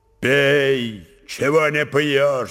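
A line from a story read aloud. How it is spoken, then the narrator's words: Sudden deafening tearful shout. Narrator (Russian): вдруг крикнул он своим оглушающим голосом, не отирая слез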